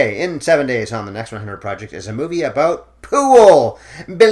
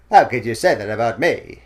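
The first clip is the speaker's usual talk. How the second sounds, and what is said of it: Imitates another person's voice. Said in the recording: “Your Cary Grant impression kind of sounds like Katharine Hepburn ... it's the male version of Katharine Hepburn ... I do have some kind of problem with the voice I'm using”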